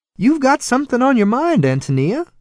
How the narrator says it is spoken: she said anxiously

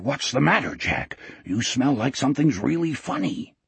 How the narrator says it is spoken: Wolf whispered hoarsely

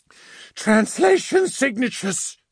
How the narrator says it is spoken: she called out

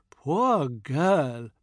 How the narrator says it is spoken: Padma sighs

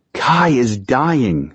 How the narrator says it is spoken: Simon pleaded

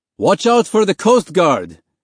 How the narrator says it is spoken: the big man next to Mahmoud shouted over the noise

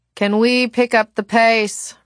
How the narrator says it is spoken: Robert Lightwood grumbled

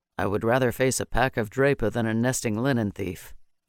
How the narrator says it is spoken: Maddock said grimly

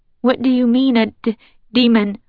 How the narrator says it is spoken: I stutter

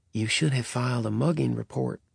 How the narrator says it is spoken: Virgil said under his breath

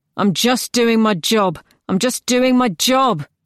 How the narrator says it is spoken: one of them say in a raised voice

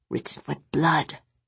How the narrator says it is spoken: Nick said in a hushed voice

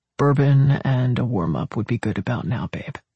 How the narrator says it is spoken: Hicks's voice was less tight, not less exhausted, when he murmured

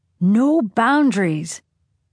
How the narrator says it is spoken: Siobhan shouting

